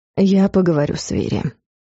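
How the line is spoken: Completely calm. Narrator (Russian): сказал уже совершенно спокойным тоном

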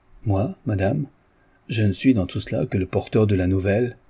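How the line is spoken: Plain. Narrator (French): dit le notaire

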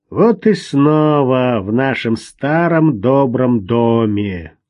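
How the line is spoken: Displeased grumble. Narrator (Russian): недовольное ворчание

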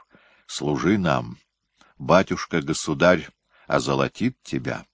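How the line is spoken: Quiet. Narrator (Russian): Шевригин тихо сказал

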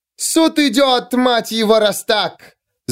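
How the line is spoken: Screamed. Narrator (Russian): завопила она

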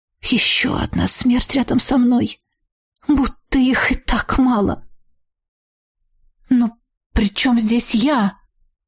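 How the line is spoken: Forced, strained. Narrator (Russian): Все же сумела выдавить

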